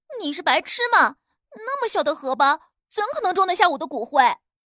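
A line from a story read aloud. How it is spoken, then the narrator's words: Loud voice. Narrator (Chinese): 大声道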